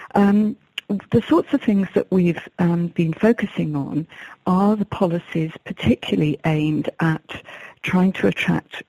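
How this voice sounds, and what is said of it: English accent. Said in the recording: “you can probably tell by my accent that I've got an English accent”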